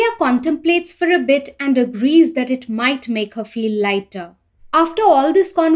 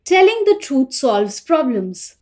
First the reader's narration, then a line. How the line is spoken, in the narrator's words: smoothly continues his line saying